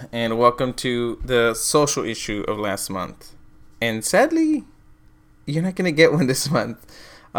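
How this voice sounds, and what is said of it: Silly put-on voice. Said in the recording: “it's my silly voice again”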